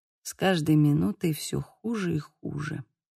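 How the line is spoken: Quiet. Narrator (Russian): тихо произнес он

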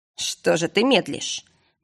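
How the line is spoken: Mocking. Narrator (Russian): насмешливо поинтересовался повелитель бескрайний Сархейм

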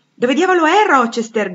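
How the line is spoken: Colonel's shout. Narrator (Italian): gridò il colonnello Denti

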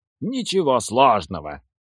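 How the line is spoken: Pleased snort. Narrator (Russian): Наим довольно хмыкнул

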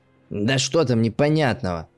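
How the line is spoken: Distant hoarse voice. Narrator (Russian): Донесся откуда-то из угла хриплый голос отца

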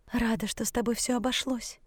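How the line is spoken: Breathed out. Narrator (Russian): выдохнула

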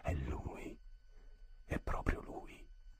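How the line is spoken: Quieter, almost joyful. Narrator (Italian): più a bassa voce, quasi con gioia

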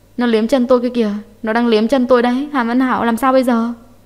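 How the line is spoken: Bursting into trembling sobs. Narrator (Vietnamese): Hạ Tuyết oa một tiếng bật khóc, run rẩy

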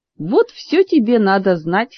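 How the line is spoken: Snort, turning serious. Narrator (Russian): хмыкнул мистер Алиец, мигов посерьезнее

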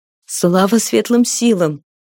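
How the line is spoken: Breathless restless woman. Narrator (Russian): выдохнула неугомонная женщина

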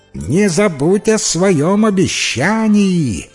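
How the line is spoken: Frog shouting after someone. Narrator (Russian): прокричала ей вслед лягушка

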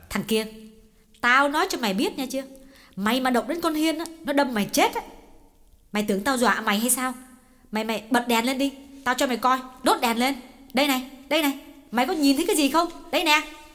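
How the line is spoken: Sharp scolding. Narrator (Vietnamese): Chị nạt

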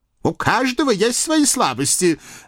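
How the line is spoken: Hateful snap. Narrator (Russian): огрызнулся Пияв с ненавистью

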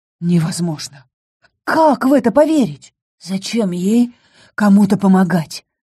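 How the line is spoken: Hoarse fearful question. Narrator (Russian): хрипло поинтересовалась я, боясь услышать ответ

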